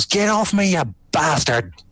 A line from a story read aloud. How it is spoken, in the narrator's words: Lokan just yells